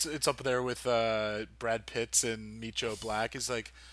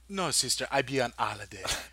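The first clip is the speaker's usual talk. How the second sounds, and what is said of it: Imperfect put-on Jamaican accent. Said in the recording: “I don't think it's the best Jamaican accent. I think there's some twists of other things in there ... You're just skipping I feel like you just skip letters in there, and then it's a Jamaican accent”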